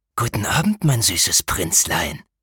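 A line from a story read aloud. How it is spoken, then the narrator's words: Hissing shadow. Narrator (German): zischte der Schatten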